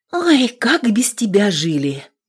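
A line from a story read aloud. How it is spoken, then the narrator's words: Habitual sigh. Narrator (Russian): Привычно вздохнула Аксинья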